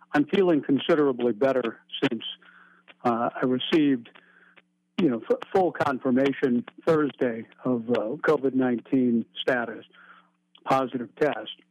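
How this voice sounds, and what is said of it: Weak, ill-sounding voice. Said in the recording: “you can hear, I hear it in my own voice ... I can still hear I have some weakness still”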